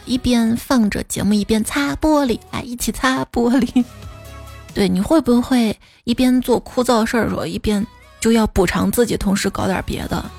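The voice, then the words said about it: Hoarse voice, slightly tongue-tied speech. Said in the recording (Chinese): “今天不知道为啥这嗓子哑了...而且说话舌头有点打结。不利索”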